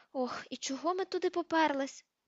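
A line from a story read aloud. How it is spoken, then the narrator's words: Groaned. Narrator (Ukrainian): простогнала Герміона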